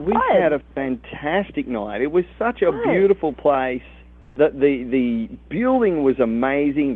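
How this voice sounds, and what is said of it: Australian accent. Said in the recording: “you are from Australia ... I love the accent. ... A good accent when I hear one.”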